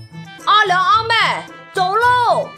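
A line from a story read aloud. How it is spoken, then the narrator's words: Shouting across yard. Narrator (Chinese): 满舅冲着院子喊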